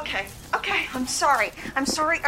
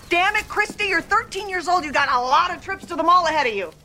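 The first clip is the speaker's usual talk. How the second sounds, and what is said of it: Raised, angry voice. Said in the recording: “raised my voice”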